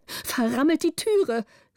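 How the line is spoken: Countess calling out. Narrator (German): rief die Gräfin

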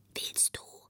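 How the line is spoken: Very soft voice. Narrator (German): ganz leise eine Stimme

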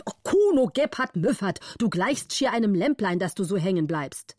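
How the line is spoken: Angry shout. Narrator (German): war zornig und rief

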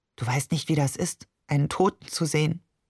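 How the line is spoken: Unusually quiet. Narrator (German): sagte schließlich ungewohnt leise

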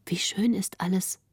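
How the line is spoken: Soft, quiet. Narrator (German): sprach Greta leise, um den Grafen nicht zu stören

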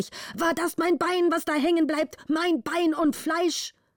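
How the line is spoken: Father's angry shout. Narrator (German): schrie der Vater zornig

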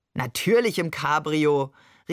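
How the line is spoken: Calling out. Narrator (German): rief Barbe gellend lachend

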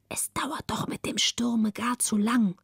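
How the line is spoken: Relieved whisper. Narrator (German): Margareta atmete frei auf, flüsterte

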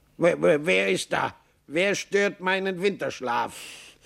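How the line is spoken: Grumpy call, just woken. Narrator (German): eine Stimme, die Maxl zu kennen meinte, rief brummig

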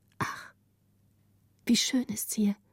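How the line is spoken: Group whispering. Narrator (German): sagte Gritta mit den anderen flüsternd

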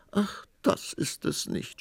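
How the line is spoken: Sobbing queen. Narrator (German): schluchzte die Königin

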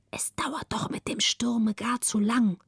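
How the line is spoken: Relieved whisper. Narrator (German): Margareta atmete frei auf, legte sich auf die andere Seite und flüsterte

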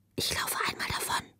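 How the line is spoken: Whispered. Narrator (German): flüsterte sie ihr zu

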